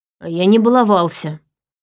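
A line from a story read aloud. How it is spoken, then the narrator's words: Gloomy. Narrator (Russian): мрачно сказала я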